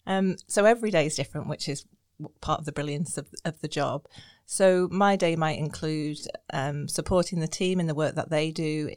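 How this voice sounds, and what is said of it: Noticeable non-local accent. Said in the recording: “People hear my accent and ask me sometimes if I've had a long journey ... You haven't lost the accent”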